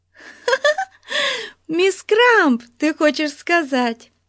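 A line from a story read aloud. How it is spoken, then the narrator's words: Giggling. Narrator (Russian): хихикнула Бетси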